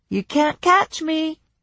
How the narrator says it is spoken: a child's voice called out

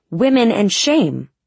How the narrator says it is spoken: Still fighting against the roar of the engines, I said

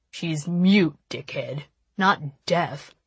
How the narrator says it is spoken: Nash snarled

